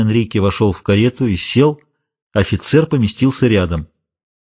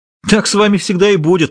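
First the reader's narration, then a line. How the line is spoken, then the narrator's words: Exclamation. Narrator (Russian): воскликнул тот, кого назвали Лукасом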